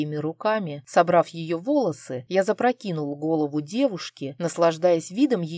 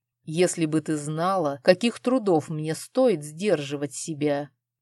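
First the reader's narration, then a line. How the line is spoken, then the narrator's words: Hissed. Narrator (Russian): Прошипел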